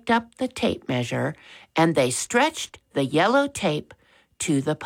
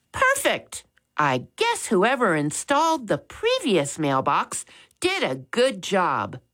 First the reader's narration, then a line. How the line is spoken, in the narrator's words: Max said happily